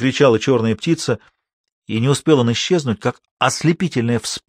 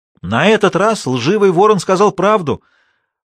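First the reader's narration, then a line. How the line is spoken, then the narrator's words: Shouted. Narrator (Russian): прокричала Шула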